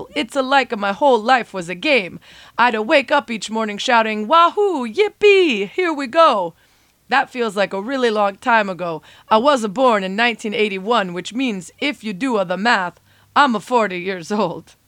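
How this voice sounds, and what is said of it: Cartoonish Italian-style character accent. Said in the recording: “apologies for the accent”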